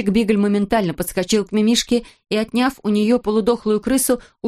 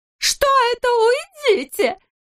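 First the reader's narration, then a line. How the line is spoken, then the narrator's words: Terrified trembling shriek. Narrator (Russian): завизжала Минога, трясясь всем телом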